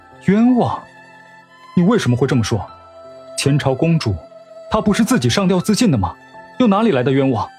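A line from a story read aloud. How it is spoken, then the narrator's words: Plain. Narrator (Chinese): 沈炼问道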